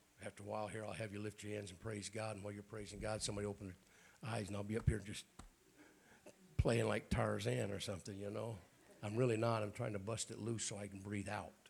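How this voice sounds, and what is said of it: Raspy voice, throat clearing. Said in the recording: “my raspy voice and clearing my throat ... Lung issues, sinus issues.”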